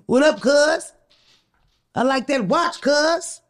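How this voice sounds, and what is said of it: Put-on Los Angeles street accent. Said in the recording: “That's my accent. That's my interpretation of like a L.A. person trying to accost you.”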